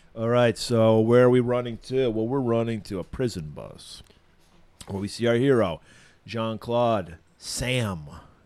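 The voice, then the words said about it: Scratchy, rough-throated voice. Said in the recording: “I'm tired of having a fucking scratchy throat ... what's with your beautiful voice?”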